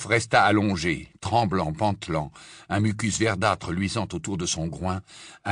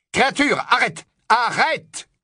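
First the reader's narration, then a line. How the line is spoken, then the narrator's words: Shouted. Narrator (French): cria Harry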